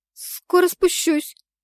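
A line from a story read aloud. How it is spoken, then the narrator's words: Squeak. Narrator (Russian): пискнула я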